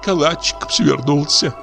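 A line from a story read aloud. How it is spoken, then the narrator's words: Sobbing and laughing tenderly. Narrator (Russian): сказала она, всхлипывая и смеясь от умиления и жалости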